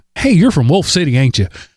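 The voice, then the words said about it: Put-on East Texas accent. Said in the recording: “I worked diligently to avoid sounding like I'm from East Texas ... accent.”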